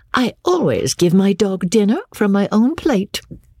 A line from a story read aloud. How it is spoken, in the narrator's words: said Rebecca, laughing mischievously